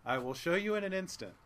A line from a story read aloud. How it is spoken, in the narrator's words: said the man